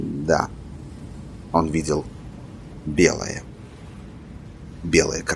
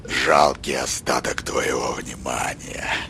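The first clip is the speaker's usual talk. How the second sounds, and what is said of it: Fierce mocking imitation. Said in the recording (Russian): “свирепо передразнил Корт”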